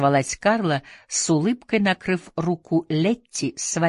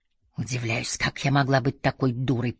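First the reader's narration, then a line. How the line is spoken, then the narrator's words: Through gritted teeth. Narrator (Russian): процедила Летти сквозь зубы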